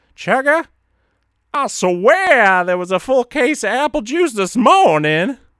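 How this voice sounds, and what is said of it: Imitates another person's voice. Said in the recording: “that was a horrible impression”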